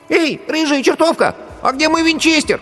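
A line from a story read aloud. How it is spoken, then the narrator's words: Shout. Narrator (Russian): поросенок крикнул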